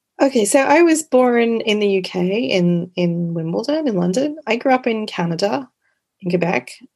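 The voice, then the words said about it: Partly Canadian accent. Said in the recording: “even your accent is part Canadian”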